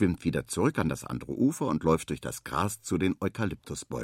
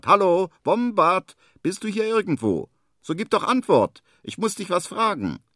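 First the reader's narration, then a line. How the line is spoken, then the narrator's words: Loud call. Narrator (German): ruft laut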